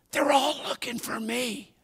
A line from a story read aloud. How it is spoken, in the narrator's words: The little guy whispered